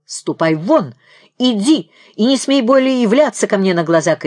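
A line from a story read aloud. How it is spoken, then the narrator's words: Shouting. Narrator (Russian): кричал Крижов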